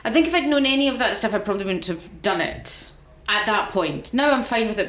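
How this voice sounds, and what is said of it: Scottish accent. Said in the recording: “because I'm Scottish... My accent, people comment on my voice, my accent.”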